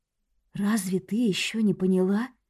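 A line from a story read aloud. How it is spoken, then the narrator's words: Sweet, soft question. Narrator (Russian): Каким-то сладким и мягким тоном спросила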